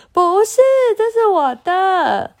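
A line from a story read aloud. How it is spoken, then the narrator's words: Angry wailing. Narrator (Chinese): 小米气气气冲冲的哇哇叫着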